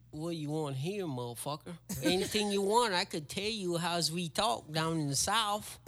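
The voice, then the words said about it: Southern twang accent. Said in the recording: “Can you speak Chamorro with a southern twang?”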